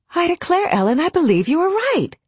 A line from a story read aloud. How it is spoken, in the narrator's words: the little girl exclaimed